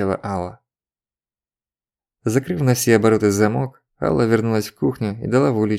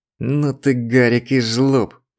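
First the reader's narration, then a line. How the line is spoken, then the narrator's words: Choked groan. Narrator (Russian): простонала Алла, борясь со спазмом, стиснувшим горло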